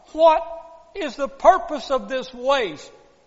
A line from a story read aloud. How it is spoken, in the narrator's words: They all cried out